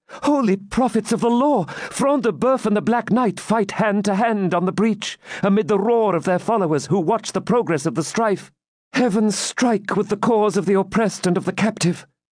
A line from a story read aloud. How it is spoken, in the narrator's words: Rebecca exclaimed